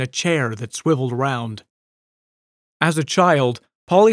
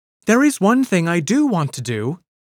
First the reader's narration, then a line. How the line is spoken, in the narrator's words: she exclaimed